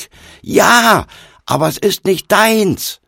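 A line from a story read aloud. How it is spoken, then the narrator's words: Yelling after someone again. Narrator (German): wieder brüllte hinterher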